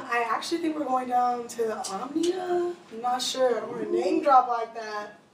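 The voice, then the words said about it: Hoarse, nearly lost voice. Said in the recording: “My voice is pretty much gone. Usually it happens, but this is a little extra.”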